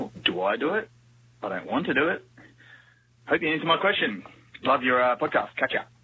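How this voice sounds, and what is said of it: Very broad Australian accent. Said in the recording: “accent. His accent is fucking brilliant. ... It's like as deeply Australian as you can get. ... It's like the Americanized movie version of Australian. ... It's like Paul Hogan or whatever, that guy's name who was like Crocodile Dundee.”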